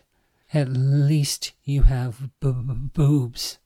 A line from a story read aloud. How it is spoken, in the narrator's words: Summer spat